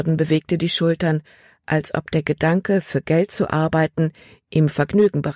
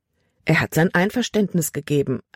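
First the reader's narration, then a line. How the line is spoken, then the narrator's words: Plain. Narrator (German): antwortete Caleb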